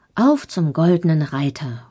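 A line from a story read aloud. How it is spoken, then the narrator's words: Calling out. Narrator (German): ruft er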